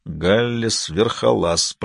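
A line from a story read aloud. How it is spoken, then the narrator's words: Muttered. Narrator (Russian): пробормотал он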